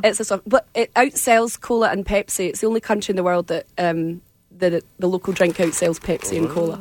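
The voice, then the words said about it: Scottish accent. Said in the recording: “your accent I can understand, but there are some people that I cannot from Scotland”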